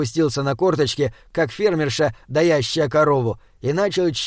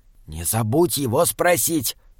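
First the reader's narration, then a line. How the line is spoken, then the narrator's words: Whisper. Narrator (Russian): прошептал Джеремия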